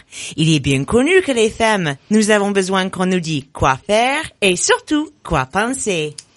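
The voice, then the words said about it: English accent speaking French. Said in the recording (French): “mon accent révélateur ... Elle est espagnole, non? ... She's so British.”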